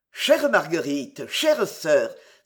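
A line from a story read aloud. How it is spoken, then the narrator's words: Admiring, surprised exclamation. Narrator (French): s'écriait celui-ci, avec une naïve admiration mêlée de surprise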